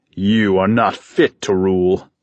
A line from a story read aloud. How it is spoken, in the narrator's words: Talos spat